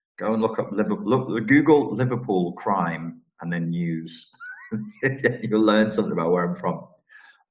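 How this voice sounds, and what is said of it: Scouse (Liverpool) English accent. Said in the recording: “All of you are going to have Scouse accents now ... you're all going to have Scouse accents”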